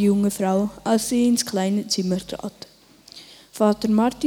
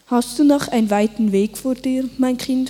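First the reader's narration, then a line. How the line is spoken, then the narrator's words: Plain. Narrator (German): fragte er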